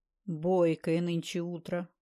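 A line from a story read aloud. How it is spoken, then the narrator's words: Grumbled. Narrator (Russian): проворчал Андрей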